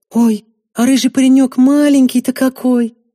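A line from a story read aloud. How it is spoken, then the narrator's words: Cooing. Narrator (Russian): проворковала Василена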